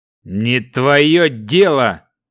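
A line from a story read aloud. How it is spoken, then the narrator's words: Rough male voice. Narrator (Russian): грубым мужским голосом ответил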